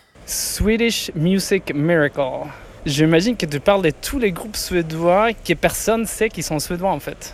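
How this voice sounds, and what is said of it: Swedish accent speaking French. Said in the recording (French): “Avec son plus bel accent”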